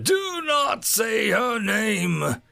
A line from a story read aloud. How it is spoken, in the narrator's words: Darth Ominous roared out